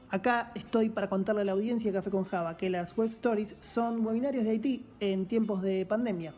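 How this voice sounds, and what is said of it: Sultry announcer voice. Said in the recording (Spanish): “Voz de locutor número uno ... irradiar tanta sensualidad”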